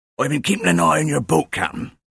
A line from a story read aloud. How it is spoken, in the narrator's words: wheezed